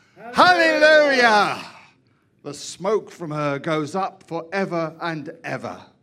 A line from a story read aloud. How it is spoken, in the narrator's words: they shouted